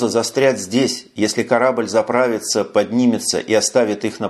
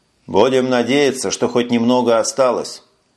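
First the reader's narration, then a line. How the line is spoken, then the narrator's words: Gloomy reply. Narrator (Russian): мрачно ответил Эш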